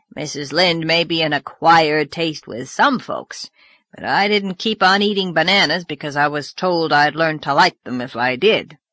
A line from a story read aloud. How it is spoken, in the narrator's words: growled Mr